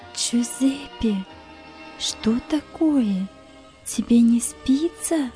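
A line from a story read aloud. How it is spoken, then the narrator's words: Quietly calling. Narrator (Russian): тихо позвала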